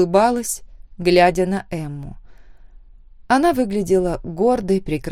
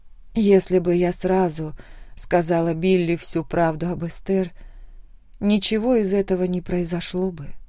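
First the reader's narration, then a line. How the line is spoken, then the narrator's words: Quiet. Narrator (Russian): тихо сказала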